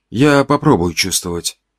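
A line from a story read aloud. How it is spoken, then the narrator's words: Quiet reply. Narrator (Russian): тихо ответил я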